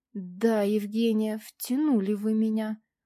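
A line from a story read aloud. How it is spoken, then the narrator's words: Breathless drawl. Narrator (Russian): протянул он, пытаясь отдышаться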